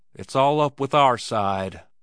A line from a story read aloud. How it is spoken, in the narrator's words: he said evenly